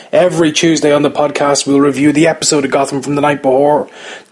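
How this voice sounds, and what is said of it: Irish accent. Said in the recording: “that accent is an Irish one”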